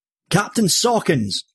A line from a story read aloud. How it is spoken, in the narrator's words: Smith called out